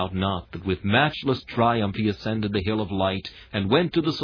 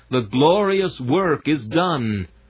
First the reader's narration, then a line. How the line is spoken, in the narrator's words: clapped their triumphant wings, and cried